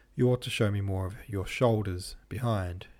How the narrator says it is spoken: he said very gravely

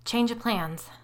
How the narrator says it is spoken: I said in a shaky voice

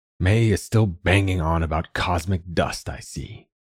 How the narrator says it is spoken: he grumbled

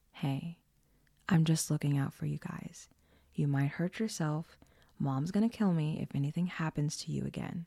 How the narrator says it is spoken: Janet lowering her voice, saying

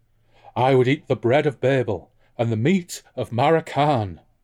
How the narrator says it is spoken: Toza said dreamily

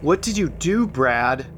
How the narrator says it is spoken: asked Doug

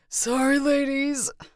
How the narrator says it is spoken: he wheezed

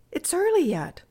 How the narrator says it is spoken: said Bertie cheerfully

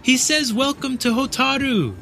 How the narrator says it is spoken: Erika shouted

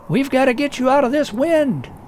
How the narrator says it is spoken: Martin shouted

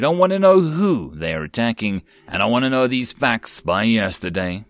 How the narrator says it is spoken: Tavar roared

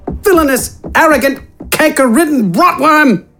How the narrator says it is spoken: Wither yelled

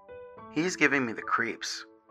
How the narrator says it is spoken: said Jaden

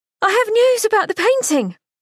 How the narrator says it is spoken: Unable to keep her exuberance to herself, she yelled out

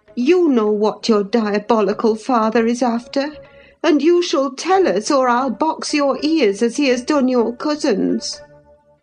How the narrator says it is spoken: I cried

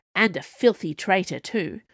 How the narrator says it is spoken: the Queen added, her tone quite grim

